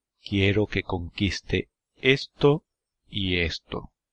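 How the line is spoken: Plain. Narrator (Spanish): dijo de Gaulle

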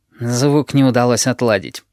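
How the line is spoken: Gloomy voice. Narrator (Russian): говорит Химера мрачно

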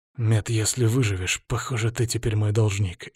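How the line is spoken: Hoarse, weak. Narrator (Russian): ответил сипло, удержавшись за спинку кресла, чтобы не упасть

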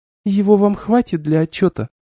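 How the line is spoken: Sighing. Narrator (Russian): Бристхаун вздохнул

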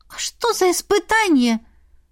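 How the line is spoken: Squeaked. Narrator (Russian): пискнула Эрма

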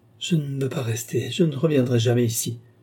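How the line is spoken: Stammering. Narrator (French): balbutia-t-elle

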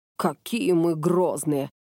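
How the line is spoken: Grumbling. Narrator (Russian): проворчал Макото

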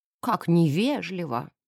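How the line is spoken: Muttering. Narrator (Russian): пробормотала леди Присцилла

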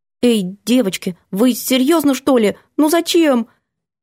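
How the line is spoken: Uncertain squeak. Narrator (Russian): Я неуверенно пискнула

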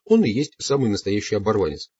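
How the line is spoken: Plain. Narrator (Russian): сказал Дон Хуан

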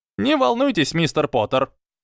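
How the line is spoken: Squeaky. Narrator (Russian): пропищал Флитвик

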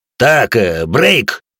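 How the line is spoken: Barked. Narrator (Russian): рявкнул бывший лейтенант

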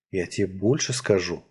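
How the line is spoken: Whisper in ear. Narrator (Russian): прошептал я ей на ухо

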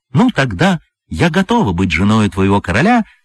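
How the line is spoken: Cheerful. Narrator (Russian): весело проговорила льдинка

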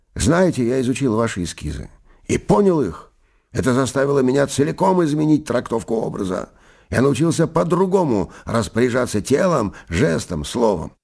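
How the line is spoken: Joyful declaration. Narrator (Russian): радостно заявил мне

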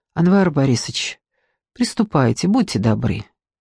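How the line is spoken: Quiet. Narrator (Russian): сказала она тихо

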